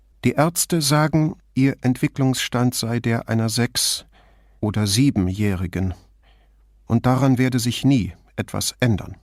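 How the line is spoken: Calmer but still agitated. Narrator (German): Ruhiger, aber nicht ruhig, meinte sie schließlich

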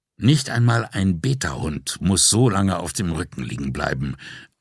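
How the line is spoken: Weary, to himself. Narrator (German): sagte er sich, plötzlich seiner Schauspielerei müde

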